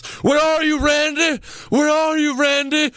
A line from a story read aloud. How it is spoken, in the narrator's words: He then stands up and he yells